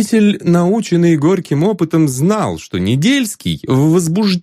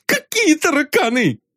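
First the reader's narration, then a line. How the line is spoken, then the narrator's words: Bailiff shouting. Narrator (Russian): закричал пристав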